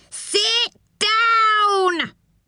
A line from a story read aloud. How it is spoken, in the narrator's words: He roared